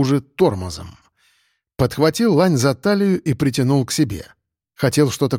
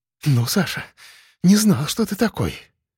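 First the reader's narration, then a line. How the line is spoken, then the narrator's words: Breathless exhale. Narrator (Russian): выдохнула кадровичка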